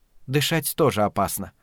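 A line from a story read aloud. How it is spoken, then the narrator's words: Calm. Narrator (Russian): ответила спокойно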